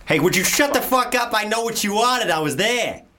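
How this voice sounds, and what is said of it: Put-on Boston accent. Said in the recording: “Do your Boston. Your Boston was good.”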